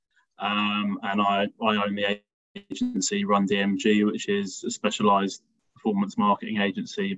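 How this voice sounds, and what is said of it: London English accent. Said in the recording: “I'm from London originally. You can probably tell by my accent”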